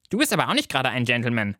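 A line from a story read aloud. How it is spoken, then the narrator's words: Plain. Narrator (German): sagt Lieselotte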